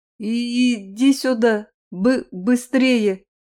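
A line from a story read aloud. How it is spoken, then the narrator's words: Frightened stammering. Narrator (Russian): От испуга худосочный клещ заикался сильнее обычного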